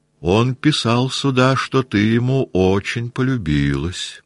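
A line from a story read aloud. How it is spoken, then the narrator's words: Calm, simple tone. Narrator (Russian): продолжал он спокойно, просто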